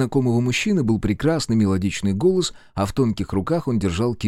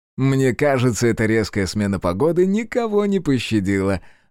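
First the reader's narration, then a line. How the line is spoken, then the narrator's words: Stranger laughing. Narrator (Russian): рассмеялся незнакомец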